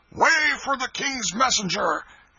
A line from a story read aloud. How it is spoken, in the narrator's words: a voice shouted